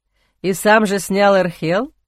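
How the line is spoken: Snorting. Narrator (Russian): хмыкнул Эхран

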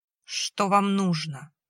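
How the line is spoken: Surprisingly even voice. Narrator (Russian): спросила она на удивление ровным голосом

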